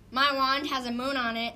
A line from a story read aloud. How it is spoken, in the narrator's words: said the wizard